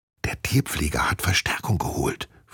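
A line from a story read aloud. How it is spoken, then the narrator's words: Whispered. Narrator (German): flüstert sie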